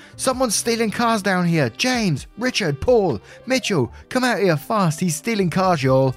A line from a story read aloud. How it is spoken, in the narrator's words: yelled at the top of my lungs